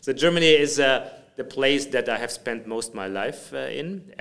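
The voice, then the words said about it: Slight German accent. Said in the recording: “you may hear from my accent... A little bit... Not too much.”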